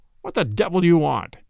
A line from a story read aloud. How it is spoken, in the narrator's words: the man's voice demanded harshly